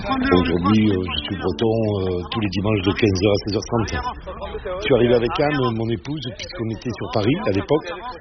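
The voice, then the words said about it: Southwestern French accent. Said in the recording (French): “mon accent, non, il n'est pas tout à fait de Saint-Malo, il est d'un côté aussi sympa, qui s'appelle Grenade-sur-Garonne”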